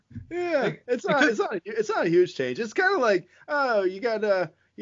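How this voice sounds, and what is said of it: Usual voice. Nothing is said of it.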